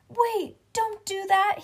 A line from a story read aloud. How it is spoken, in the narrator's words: he shouted